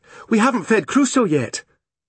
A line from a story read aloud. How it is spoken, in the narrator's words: she cried